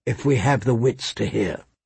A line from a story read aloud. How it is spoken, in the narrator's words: she said softly